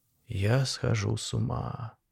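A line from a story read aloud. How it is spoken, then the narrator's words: Whispered. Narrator (Russian): прошептал я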